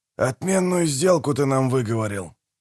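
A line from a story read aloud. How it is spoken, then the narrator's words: Grumbled. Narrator (Russian): проворчал Манфрид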